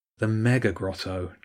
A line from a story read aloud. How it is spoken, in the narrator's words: James groaned